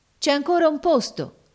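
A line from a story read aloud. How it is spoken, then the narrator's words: Sailors shouting. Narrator (Italian): gridarono allora i marinai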